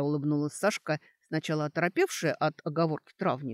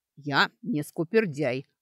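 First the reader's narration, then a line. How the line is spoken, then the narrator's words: Herbalist's snort. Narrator (Russian): хмыкнул травник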